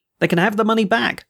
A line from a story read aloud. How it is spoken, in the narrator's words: I cried